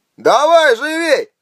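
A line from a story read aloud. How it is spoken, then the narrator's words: Yelling. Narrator (Russian): заорал Харнак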